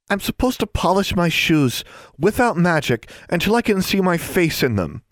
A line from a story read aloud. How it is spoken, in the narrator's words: Anna moaned